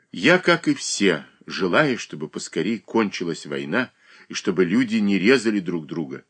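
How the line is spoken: Calm reply. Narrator (Russian): спокойно ответил

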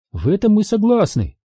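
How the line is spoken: Cheerful. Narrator (Russian): бодро ответил Астри

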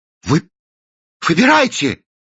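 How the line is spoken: Exclaiming. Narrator (Russian): воскликнул Кранк

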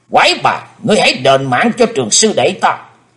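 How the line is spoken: Loud angry shout. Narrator (Vietnamese): Hải Âu quái khách trông thấy quát lớn

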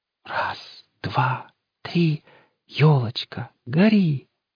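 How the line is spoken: Solemn child's whisper. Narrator (Russian): торжественным шепотом произносит внучка

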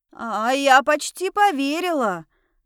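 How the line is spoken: Smiling shout. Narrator (Russian): крикнула я с улыбкой

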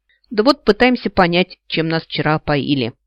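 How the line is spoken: Displeased grumble. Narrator (Russian): пробурчал, недовольно

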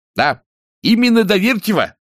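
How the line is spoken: Loud repetition. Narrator (Russian): повторил он громко

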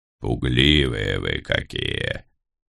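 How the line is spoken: Soothing raven's growl. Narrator (Russian): Привычно, а потому успокаивающе рыкнул на меня ворон

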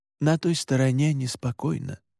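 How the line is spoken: Quiet. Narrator (Russian): так же тихо сказал Александр

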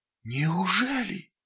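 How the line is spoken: Incredulous whisper. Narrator (Russian): неверяще прошептал он

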